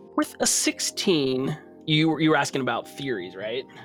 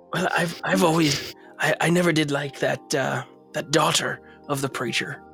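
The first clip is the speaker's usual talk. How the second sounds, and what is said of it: Character voice with an accent. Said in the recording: “I've forgotten my accent.”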